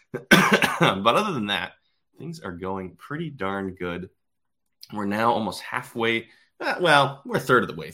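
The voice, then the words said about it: Slightly hoarse, froggy voice. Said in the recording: “I've got a little frog in my throat”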